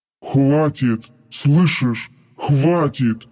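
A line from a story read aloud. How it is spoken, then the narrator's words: Angry hiss. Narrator (Russian): гневно шипел Дармат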